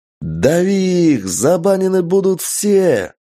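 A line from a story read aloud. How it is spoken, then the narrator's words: Frenzied battle yell. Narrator (Russian): Орал я в боевом угаре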